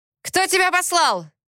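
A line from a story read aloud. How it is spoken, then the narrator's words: Fearsome bark. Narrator (Russian): страшно рявкнул Альфа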